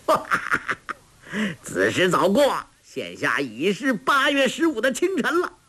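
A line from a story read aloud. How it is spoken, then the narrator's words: Laughing. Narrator (Chinese): 欧阳锋笑道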